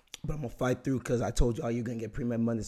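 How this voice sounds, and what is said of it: Hoarse, strained voice. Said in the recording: “a lot of yelling for my part ... So my voice is gone. That's why I sound like this.”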